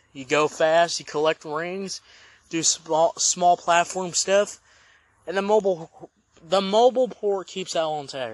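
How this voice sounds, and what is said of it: Slightly drowny, unclear voice. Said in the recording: “my voice is a little drowny”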